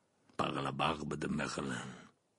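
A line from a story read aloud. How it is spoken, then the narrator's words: Mutter. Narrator (French): marmonna Maugrey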